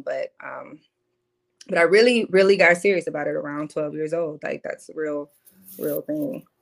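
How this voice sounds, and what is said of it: Strong cornbread fed accent. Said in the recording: “I always had this accent. People used to say, you know, the accent was too much ... my cornbread fed accent”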